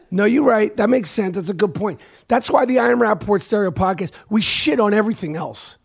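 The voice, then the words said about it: Hoarse, strained voice. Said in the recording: “My voice is fucked up. ... I lost my voice for the people screaming and yelling. ... I actually blew, I think, a vocal cord right there. Okay, so that's why I sound the way I sound.”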